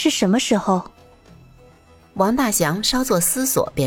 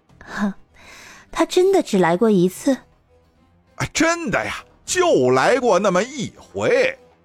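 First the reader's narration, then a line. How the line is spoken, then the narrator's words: Smiling. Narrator (Chinese): 墨渊朝他一笑，说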